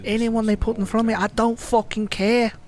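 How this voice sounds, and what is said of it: Mock Scouser accent. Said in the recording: “you can hear that Scouser accent. It's awful”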